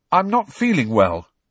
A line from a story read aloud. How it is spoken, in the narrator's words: said Harry loudly